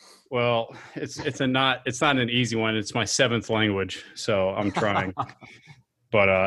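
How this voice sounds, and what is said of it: Usual voice. Nothing is said of it.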